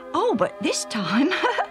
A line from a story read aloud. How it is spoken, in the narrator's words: Alf laughed